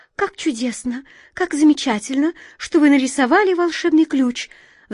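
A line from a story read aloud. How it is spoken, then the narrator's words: Excited chirping. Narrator (Russian): взволнованно прощебетала ласточка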